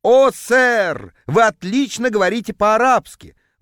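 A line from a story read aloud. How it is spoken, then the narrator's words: Ecstatic howl. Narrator (Russian): восторженно взвыл продавец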